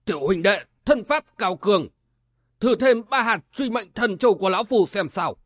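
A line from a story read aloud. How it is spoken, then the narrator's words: Alarmed, angry shout. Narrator (Vietnamese): Vừa kinh hãi vừa tức giận, lão quát lớn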